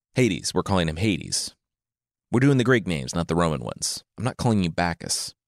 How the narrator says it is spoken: Xanthias said

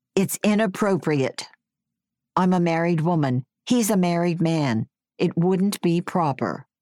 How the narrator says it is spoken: she said in her outside voice

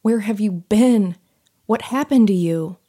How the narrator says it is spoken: wailed

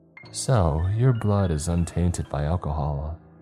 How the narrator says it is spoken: murmured

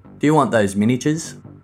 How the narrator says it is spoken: Brady answered and asked in an unusually loud voice

